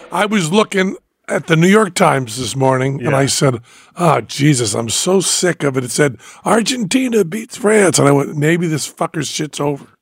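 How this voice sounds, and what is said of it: Hoarse, strained voice. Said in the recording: “You have to pardon Penn's voice. It's a little hoarse. ... just screaming”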